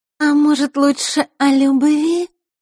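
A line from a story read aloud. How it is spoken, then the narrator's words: Sweet voice. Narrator (Russian): сладким голосом произнесла Маришка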